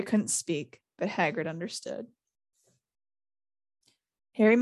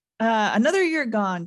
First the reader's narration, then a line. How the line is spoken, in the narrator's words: Dumbledore said cheerfully